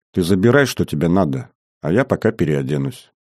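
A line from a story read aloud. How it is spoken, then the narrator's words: Quiet, smiling offer. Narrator (Russian): Красавица вдруг странно улыбнулась, подошла к нему почти вплотную и тихо предложила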